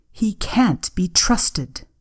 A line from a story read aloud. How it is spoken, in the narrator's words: she snapped